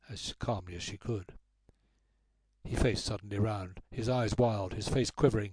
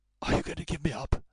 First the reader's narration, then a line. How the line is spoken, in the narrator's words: he asked hoarsely